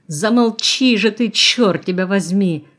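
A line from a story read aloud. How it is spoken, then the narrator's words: Roaring. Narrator (Russian): взревел Юрка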